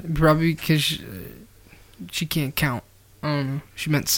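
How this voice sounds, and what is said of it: Usual voice. Nothing is said of it.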